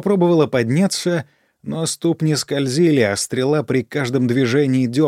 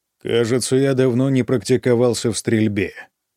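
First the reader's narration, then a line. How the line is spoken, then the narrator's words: Even-toned remark. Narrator (Russian): ровным тоном заметил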